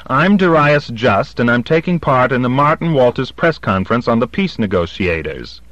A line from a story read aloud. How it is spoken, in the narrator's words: I've got a good loud voice and no compunction whatever about using it, said quite loudly and clearly